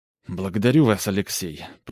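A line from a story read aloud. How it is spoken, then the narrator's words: Muttered. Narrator (Russian): пробормотал Илья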